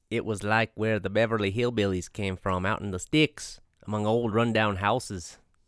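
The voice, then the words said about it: Attempted Illinois accent, sounds Minnesotan. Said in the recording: “I don't know what an Illinois accent sounds like, but I would do it. ... That's Minnesotan, I'd say.”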